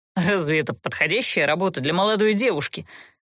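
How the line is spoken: Indignant snort. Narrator (Russian): возмущенно фыркнул герцог

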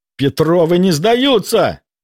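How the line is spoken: Yelling, spitting blood. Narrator (Russian): Брызжа кровавой слюной, заорал он

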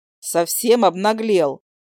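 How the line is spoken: Grumble. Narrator (Russian): проворчала

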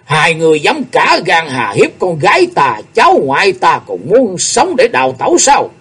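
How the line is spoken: Deep, commanding bellow. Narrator (Vietnamese): Tiếng quát tuy trầm đục, nhưng hàm chứa một oai lực kinh người

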